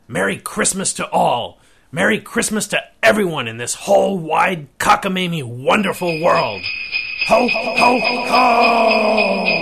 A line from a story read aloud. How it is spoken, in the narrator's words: shouted